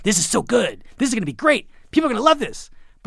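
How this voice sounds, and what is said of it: Bill Simmons impression, excited. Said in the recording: “Good Simmons impression.”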